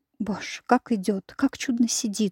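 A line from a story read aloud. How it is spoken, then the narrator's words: Crowd whispering. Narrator (Russian): шептали в свите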